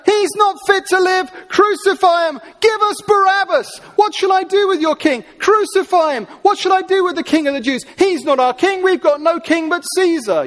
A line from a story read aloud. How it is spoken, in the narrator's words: The crowd yell even louder